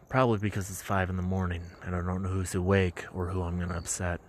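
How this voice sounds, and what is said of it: Quiet, hushed speaking. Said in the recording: “why I'm talking so quiet”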